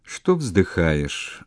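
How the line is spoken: Grumbling. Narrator (Russian): ворчливо сказал Попков

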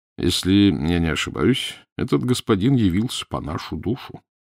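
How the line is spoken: Calm. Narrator (Russian): спокойно молвил Данила

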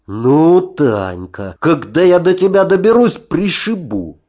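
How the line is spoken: Hissing. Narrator (Russian): прошипел я

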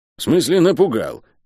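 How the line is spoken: Irritated mutter. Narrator (Russian): раздраженно буркнула она

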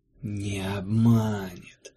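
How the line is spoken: Whispered by a shadow. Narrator (Russian): прошептала седьмая тень

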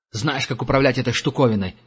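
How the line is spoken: Barking. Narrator (Russian): рявкнул следопыт

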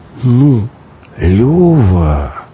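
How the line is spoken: Reproachful drawl. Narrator (Russian): коризненно протянул тот

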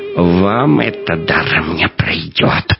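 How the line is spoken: Hissing. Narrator (Russian): прошипел он

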